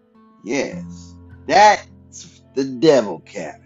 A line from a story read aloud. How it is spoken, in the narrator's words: said